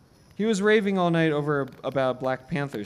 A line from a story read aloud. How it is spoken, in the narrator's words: Stephen said